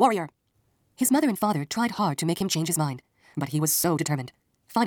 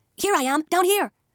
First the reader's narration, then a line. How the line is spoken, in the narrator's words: shouted Isun Bushi